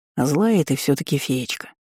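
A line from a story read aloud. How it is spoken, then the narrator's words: Sighing. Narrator (Russian): вздохнул Эдгар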